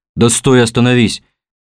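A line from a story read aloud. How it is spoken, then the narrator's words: Yelling. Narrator (Russian): заорал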